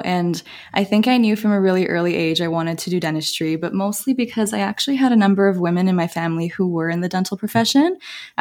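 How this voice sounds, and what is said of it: Canadian English accent. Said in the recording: “you can probably tell from my accent, but I'm from Canada, born and raised in Toronto”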